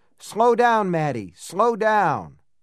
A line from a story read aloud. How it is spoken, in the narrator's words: yelling